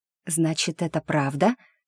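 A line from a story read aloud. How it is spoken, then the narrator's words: Whispered question. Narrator (Russian): шепотом спросила подруга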